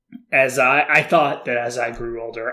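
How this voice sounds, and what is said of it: Imitates a cartoon character's voice. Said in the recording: “I'm speaking as Choji right now ... my incredible impression”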